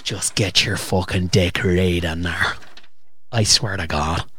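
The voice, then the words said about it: Aggressive put-on Irish accent. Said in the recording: “aggressive and Irish as well ... Really aggressive Irish ... The Irish accent's boss on a woman”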